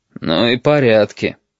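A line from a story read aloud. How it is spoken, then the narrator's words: Grumbling. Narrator (Russian): проворчал пассажир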